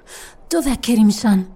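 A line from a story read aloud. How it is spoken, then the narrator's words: Breathless girl asking. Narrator (Italian): domandò la ragazza, ansimando senza fiato dopo la lunga corsa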